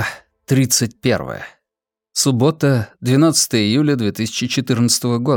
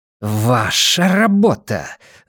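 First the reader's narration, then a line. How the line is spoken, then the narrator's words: Hissing. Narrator (Russian): зашипела Ванита на Финли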